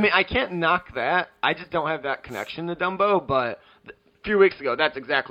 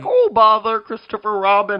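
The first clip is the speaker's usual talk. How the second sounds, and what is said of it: Winnie the Pooh cartoon voice. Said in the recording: “it's an A+ Winnie the Pooh voice ... going professional impersonator.”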